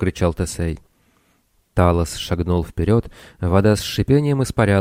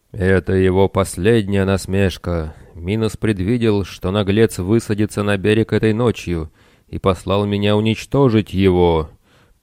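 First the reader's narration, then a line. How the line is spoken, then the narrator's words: Booming metallic voice. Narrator (Russian): прогремел металлический голос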